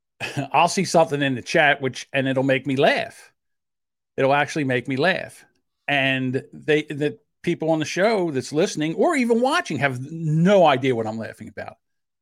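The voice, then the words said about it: South Jersey accent. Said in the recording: “with my South Jersey accent ... So, yeah, I have a South Jersey accent.”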